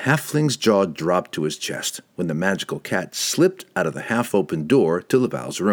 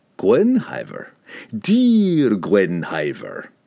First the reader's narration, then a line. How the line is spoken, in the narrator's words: Pook purred